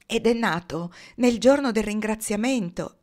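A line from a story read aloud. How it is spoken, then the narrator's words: Exclaimed. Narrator (Italian): esclamò Loren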